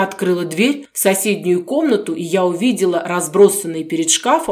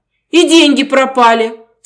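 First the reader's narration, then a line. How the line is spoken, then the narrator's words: Sobbing, bursting into tears. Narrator (Russian): всхлипнула Катя, и, не выдержав, заревела в три ручья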